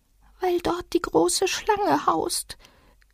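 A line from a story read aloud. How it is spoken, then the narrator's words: Small creature, very quiet. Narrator (German): sagte das kleine Tier mit sehr leiser Stimme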